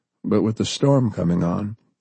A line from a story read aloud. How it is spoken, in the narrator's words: His voice trailed off into silence